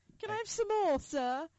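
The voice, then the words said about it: Put-on British accent. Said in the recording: “that British accent”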